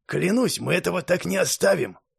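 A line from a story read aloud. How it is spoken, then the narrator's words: Through gritted teeth. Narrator (Russian): Процедил сквозь зубы мастер Патрик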